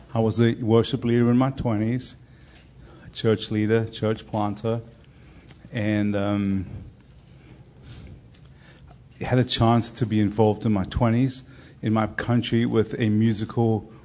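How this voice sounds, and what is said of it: South African accent. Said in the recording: “originally from South Africa, if you're wondering about the accent.”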